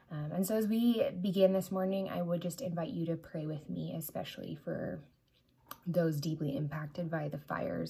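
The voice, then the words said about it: Strained, hoarse-sounding voice. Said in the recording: “You'll have to forgive my voice this morning. ... I am suffering from the smoke from the fires.”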